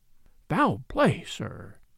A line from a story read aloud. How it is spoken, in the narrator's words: continued, dropping his voice confidentially